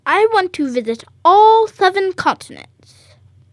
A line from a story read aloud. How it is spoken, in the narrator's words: Cashew snaps